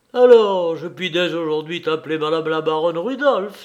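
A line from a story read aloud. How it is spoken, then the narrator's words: Exclaimed. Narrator (French): s'écria l'ex-notaire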